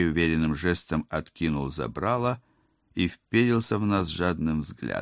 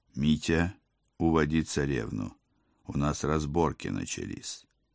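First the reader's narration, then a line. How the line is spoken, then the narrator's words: Quiet request. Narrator (Russian): тихо попросил я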